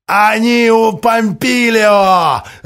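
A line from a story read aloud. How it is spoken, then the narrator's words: Mocking laughter. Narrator (Russian): расхохотался ему в лицо Генрих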